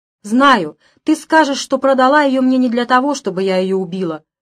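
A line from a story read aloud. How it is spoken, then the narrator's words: Shouted. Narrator (Russian): крикнула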